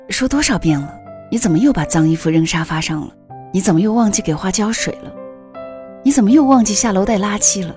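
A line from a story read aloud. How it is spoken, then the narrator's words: Plain. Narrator (Chinese): 我媳妇儿说的那句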